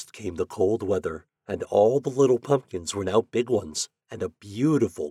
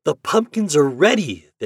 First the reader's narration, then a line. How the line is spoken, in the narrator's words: they cried